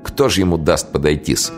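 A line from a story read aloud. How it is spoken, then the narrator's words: Laughing. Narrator (Russian): Тихоня даже рассмеялся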